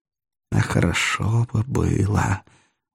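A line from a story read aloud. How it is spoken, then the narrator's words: Barely audible, through teeth. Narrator (Russian): чуть слышно сквозь зубы сказал Римский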